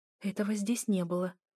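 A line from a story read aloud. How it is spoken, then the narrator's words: Whispering to herself. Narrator (Russian): прошептала сама себе только для того, чтобы развеять тишину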